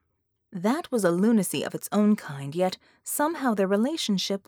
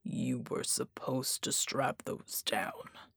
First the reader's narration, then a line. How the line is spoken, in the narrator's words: he murmured